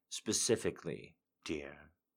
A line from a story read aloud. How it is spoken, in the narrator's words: he murmurs